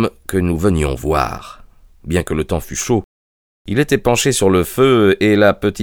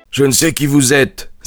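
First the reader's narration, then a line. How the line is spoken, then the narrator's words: Exclaimed. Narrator (French): s'écria-t-il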